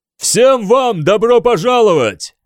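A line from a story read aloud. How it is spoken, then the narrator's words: Booming roar. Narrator (Russian): проревел он моей команде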